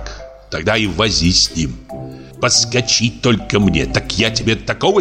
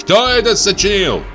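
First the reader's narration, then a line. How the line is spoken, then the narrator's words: Loud question. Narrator (Russian): спросил громко Прачкин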